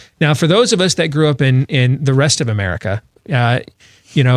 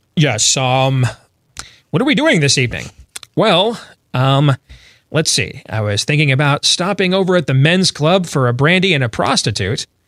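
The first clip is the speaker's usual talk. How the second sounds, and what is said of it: Stereotyped uptight white man voice. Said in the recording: “I want to use the white man's voice that when I used to listen to gangster rap ... this is how they would always impersonate white folks”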